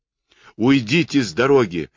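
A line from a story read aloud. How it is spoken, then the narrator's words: Yelling. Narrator (Russian): заорал Кэт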